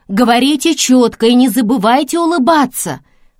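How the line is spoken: Shouting after them. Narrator (Russian): крикнула она им вслед

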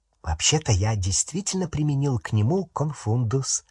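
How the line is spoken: Whispered. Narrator (Russian): шепотом сказал Рон Гарри

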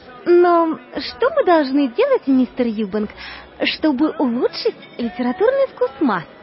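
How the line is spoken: Timid young girl asking. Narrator (Russian): Молоденькая девушка робко спросила

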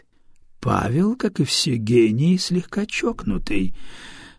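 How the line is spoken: Sighed. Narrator (Russian): вздохнул Дар Антонио

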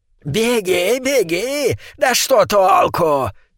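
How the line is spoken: Shout, almost girlish voice. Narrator (Russian): крикнул ликантроп почти девичьим голосом

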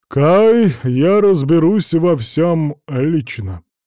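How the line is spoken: Loud. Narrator (Russian): громко произнес старший

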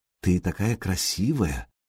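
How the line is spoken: Whispered. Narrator (Russian): шепотом сообщил Сергей Синеглазки

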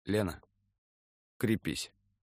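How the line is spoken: Strained, forced words. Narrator (Russian): Данилин все-таки выдавил из себя

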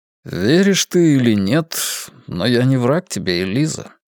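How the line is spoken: Calm. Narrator (Russian): спокойно сказал

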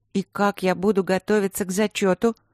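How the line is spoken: Gloomy question. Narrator (Russian): мрачно вопросила Алина

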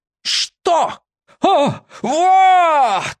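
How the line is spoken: Man's high-pitched shout. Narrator (Russian): тонким голосом закричал дядька

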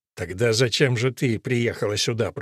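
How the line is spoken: Grumbling. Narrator (Russian): проворчал отец Гарсия

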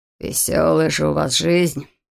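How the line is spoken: Grumbling. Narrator (Russian): проворчал врач

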